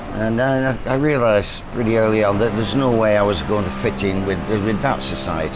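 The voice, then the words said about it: Colloquial Lancashire accent. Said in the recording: “I was a Lancashire lad, very colloquial accent, and a lot of air bar gum and necky thump”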